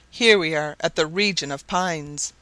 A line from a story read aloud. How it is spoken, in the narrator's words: cried Barbicane